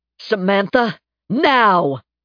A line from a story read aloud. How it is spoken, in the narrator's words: He shouted